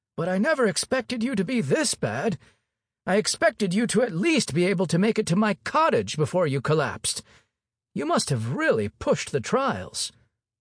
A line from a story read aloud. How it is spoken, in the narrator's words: he said in a wizened old voice